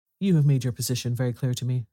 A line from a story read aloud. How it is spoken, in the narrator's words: said Holmes